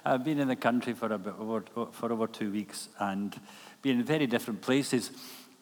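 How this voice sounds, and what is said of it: Speaks with a noticeable accent. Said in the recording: “get used to this accent, which I inherited from my mother”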